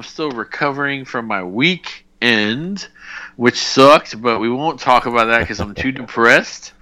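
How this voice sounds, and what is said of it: Tired-sounding voice. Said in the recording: “I sound tired”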